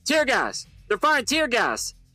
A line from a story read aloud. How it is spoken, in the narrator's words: shouted one of the guards